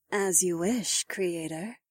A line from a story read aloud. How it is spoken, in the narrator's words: Eileen purred